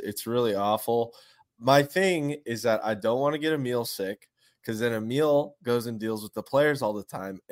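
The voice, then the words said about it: Sick, congested-sounding voice. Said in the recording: “I'm sick again. I'm just sick. You can hear it in my voice.”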